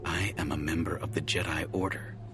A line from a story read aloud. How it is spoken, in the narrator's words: Jay said quietly